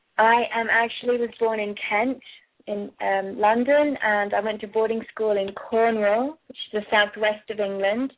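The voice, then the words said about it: British accent. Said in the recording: “that's not an Australian accent. She sounds like she's from somewhere in the UK.”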